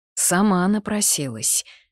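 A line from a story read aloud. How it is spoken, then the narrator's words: Muffled exhale. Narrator (Russian): глухо выдохнул Кастиан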